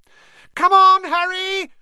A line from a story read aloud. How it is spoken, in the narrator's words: Hermione screamed